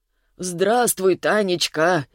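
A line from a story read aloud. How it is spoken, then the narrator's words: Unhappy greeting. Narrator (Russian): несчастным голосом поприветствовал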